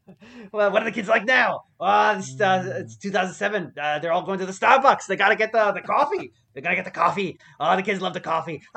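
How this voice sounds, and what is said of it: Weird, bad impression of another person. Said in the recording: “I'm doing it like a weird kind of bad Trump impression... I thought you were doing it like, fuck you, Baltimore.”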